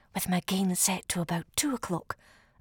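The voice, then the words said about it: Whispering. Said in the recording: “This is me whispering,”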